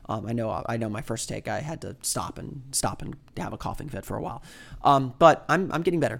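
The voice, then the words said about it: Sour voice, occasional coughing. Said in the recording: “my voice is still a little bit sour, and I probably paused to cough a few times”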